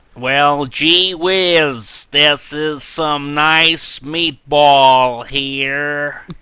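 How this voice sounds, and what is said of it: Put-on American accent, drifting Bronx. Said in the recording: “your best American accent? ... like a Hugh Laurie ... It started off as like an American tourist with like a camera around their neck, and it turned into like someone from the Bronx.”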